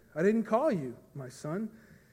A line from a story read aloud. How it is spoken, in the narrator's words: Eli said